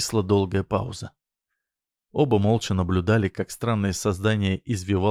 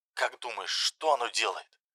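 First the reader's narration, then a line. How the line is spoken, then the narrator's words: Barely audible phone whisper. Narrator (Russian): прошептал Олег, и его голос стал едва различим в трубке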